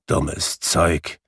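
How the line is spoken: Grumbling. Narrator (German): brummte Scrooge

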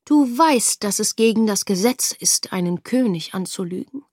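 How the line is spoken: Mild voice. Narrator (German): sprach er die Tochter mit milder Stimme an

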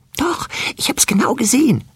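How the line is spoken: Whisper. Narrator (German): hörte es wispern

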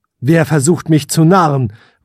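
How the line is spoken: Called into darkness. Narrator (German): rief der Prinz in die Dunkelheit hinein

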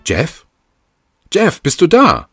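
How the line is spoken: Calling down a hallway. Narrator (German): rief sie durch den Flur

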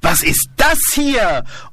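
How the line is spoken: Screaming. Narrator (German): schreit

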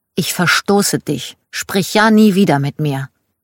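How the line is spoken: Said angrily. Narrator (German): sagte

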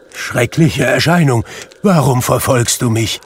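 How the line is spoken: Called out. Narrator (German): rief er

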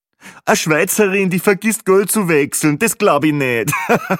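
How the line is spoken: Joking laughing loudly. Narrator (German): lachte er selbst am lautesten über sein fades Witzchen

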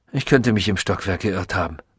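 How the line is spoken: Distracted murmur. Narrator (German): murmelte er, als sei er mit etwas anderem, weit wichtigerem beschäftigt

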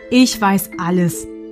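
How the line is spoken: Plain. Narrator (German): antwortete

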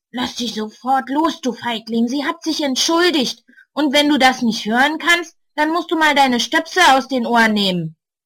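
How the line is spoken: Growled. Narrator (German): knurrt er den Großen an

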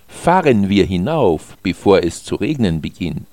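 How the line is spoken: Plain. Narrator (German): sagte Alex

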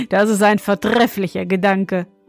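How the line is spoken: Young man laughing. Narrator (German): meinte der junge König und lachte

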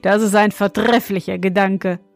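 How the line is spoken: Young king, laughing. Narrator (German): meinte der junge König und lachte

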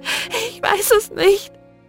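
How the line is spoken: Sobbing. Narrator (German): schluchzte sie

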